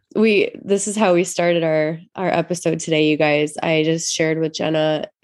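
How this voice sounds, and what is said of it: Stuffy, congested voice. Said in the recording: “if it sounds like i sound stuffy it's because i just got over covid”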